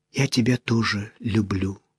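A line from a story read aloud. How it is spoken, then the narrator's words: Whispered. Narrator (Russian): прошептала она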